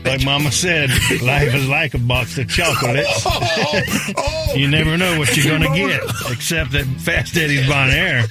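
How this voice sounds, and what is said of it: Forrest Gump character impression. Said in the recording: “my best Forrest Gump impression”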